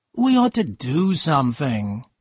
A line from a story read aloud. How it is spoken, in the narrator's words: she said in a tired voice